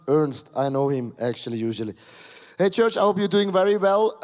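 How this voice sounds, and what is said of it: Low, sick-sounding voice. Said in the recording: “my voice is a little bit different. It's very uh, low, my voice, because uh, uh, I'm sick since, uh, uh sick since Thursday ... my voice is attacked and I have a little bit fever”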